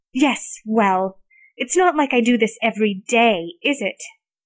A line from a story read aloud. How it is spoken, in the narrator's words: She snapped back